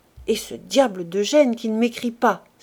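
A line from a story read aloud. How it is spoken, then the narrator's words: Desperate exclamation. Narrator (French): s'écria Rougon dans un élan de désespoir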